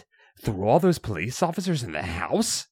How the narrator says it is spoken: You scoff

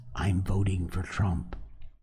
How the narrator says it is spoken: Fearing backlash, whisper

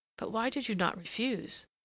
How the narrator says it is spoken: Some, the frankest, murmured

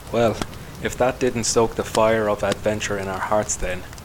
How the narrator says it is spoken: the explorer gives a hollow chuckle

